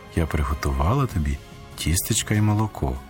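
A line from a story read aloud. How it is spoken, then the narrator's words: Quiet speech. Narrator (Ukrainian): промовила тихо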